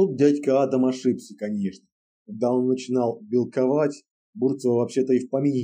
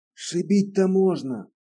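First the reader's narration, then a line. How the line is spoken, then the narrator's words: Quiet musing, bearded man. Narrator (Russian): Тихонько рассуждал бородач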